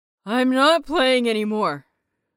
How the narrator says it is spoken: Peachy groaned, burping again

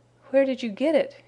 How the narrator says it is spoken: he groaned

